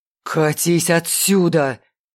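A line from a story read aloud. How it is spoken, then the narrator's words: Hoarse rasp. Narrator (Russian): хрипел Белиал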